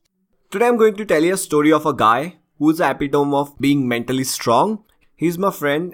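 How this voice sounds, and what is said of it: Voice in poor condition. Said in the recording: “my voice is not really good today. That's because I'm not feeling well.”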